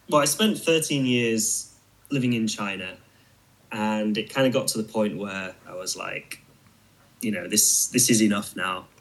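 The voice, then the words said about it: British accent. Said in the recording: “Obviously, you're from Britain at some point. I can tell by the accent.”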